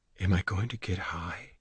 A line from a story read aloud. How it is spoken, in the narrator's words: She lowered her voice and said